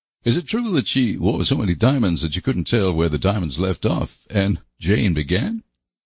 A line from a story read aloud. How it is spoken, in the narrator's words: Anne laughed